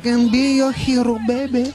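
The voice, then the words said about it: Singing in a put-on Spanish accent. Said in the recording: “I just sing with a Spanish accent.”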